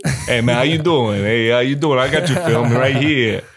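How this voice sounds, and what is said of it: Put-on New York accent. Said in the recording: “I give him a New York accent ... New York accent”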